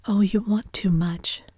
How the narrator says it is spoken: she cried to Gatsby

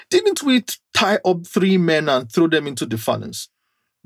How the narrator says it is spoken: jumped up in amazement and exclaimed to his advisors, saying

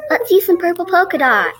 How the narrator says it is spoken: One yelled out

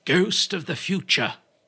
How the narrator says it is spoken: exclaimed

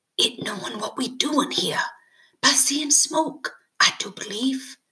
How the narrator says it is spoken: Timothy said quietly, as though afraid to chase the sound away

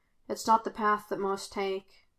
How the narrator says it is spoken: Kane quietly admitted

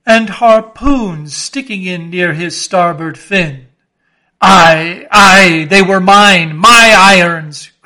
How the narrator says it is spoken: cried Ahab exultingly

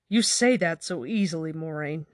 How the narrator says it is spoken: Nynaeve exclaimed

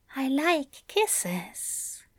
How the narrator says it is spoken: Aziraphale murmured

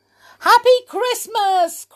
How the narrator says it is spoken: cried Mr

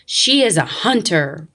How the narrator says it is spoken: roared the lion

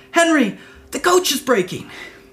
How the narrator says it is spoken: the prince heard a loud cracking noise behind him, so he cried out

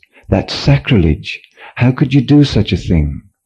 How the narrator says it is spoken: cried one of disciples

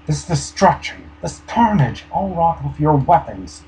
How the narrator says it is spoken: exclaimed

